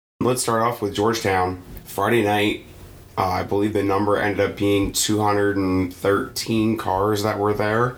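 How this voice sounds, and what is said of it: Hoarse, strained voice. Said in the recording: “pardon my voice. ... now I can barely speak”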